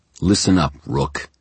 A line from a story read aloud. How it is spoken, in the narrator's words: he said, his voice harsh